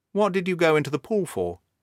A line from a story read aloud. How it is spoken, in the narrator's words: he asked